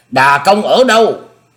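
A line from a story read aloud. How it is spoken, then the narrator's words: Loud, composed question. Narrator (Vietnamese): gặp nguy không loạn, ông lớn tiếng dõng dạc hỏi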